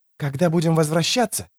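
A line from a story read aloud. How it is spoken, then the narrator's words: Whispering. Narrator (Russian): шептал он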